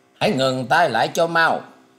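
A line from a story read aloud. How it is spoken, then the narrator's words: Loud shout. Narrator (Vietnamese): Ngũ hoàng tử liền quát to lên rằng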